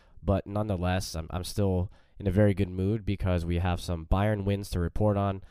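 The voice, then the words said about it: Congested voice from a cold. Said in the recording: “Slightly under the weather, currently battling uh, a little bit of a cold, as you can probably hear in my voice”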